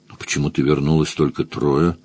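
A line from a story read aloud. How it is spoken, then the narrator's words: Muttering. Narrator (Russian): бормотал Маркус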